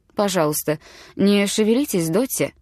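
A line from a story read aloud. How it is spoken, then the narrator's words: Calm. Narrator (Russian): спокойно сказал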